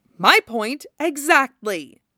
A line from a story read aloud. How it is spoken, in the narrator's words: Yagura snaps